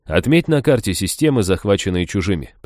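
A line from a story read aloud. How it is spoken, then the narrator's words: Suggesting. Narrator (Russian): предложил я посланнику богомолов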